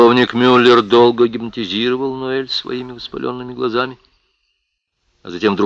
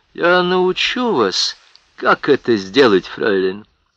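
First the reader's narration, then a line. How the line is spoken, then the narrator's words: Ingratiating promise. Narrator (Russian): вкрадчиво пообещал он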